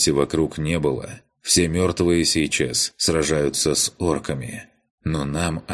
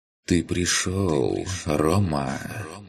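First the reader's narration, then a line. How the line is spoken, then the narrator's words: Soft rustling whisper. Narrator (Russian): Негромко прошелестело у меня в голове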